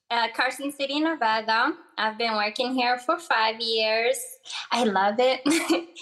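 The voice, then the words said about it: Moroccan Arabic-accented English. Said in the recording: “you're uh, Arabic. What's your accent? ... I was born in um, uh, North Africa in this country called Morocco. It's an Arab country. My primary language is Arabic and a little bit of French. Um, English is my third language. I do have an accent”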